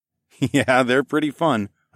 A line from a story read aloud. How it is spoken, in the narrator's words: I chuckled